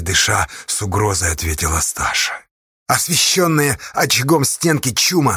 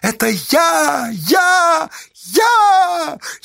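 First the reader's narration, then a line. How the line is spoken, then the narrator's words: Jubilant shout. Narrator (Russian): ликующе закричала Байте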